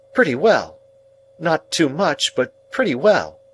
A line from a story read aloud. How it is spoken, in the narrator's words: returned my sister curtly